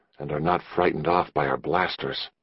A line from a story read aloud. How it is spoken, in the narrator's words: Patrolman Trong replied equally quietly